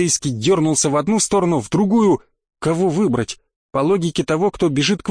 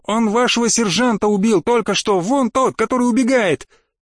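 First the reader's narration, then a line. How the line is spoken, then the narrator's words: Yelling in someone's face. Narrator (Russian): Заорать в самое лицо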